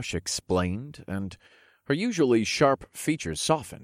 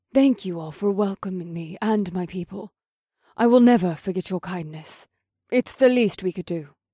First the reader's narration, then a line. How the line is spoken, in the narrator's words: Eva insisted